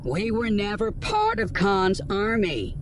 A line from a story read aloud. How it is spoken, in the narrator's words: the woman called out to him from behind the bars of their cell